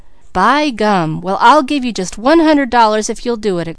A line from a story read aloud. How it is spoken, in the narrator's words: exclaimed Peter